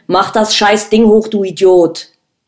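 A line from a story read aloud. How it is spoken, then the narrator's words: Yelling. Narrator (German): brüllte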